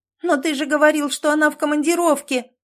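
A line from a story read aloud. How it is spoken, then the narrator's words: Shouting. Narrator (Russian): выкрикнула Катя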